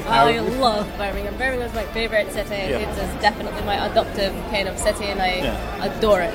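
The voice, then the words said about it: Scottish accent. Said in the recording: “we can hear you're not a local person to Birmingham in your voice there ... lose the Scottish accent”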